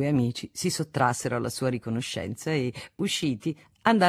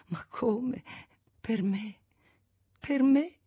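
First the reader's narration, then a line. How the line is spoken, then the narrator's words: Sobbing repetition. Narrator (Italian): ripeteva fra i singhiozzi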